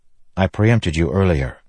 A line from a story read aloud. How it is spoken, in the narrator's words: Kaladin said